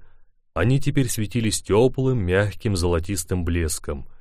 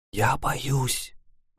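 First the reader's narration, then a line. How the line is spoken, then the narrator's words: Trembling whisper. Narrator (Russian): прошептала с дрожью в голосе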